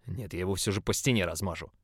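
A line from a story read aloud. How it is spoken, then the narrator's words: Growling brute. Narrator (Russian): прорычал Громила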